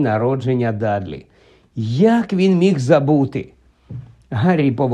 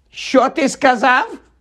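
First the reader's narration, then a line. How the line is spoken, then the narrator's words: Muffled barking aunt. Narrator (Ukrainian): гаркнула за дверима тітка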